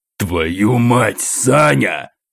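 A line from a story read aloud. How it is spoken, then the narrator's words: Shocked growl. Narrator (Russian): шокированно осматриваясь вокруг, прорычал полковник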